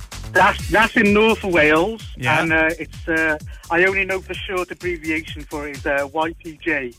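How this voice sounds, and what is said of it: Welsh accent. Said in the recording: “I'm sensing an accent with you, my friend. Are you from the UK? ... Yes, the wonderful place called Wales.”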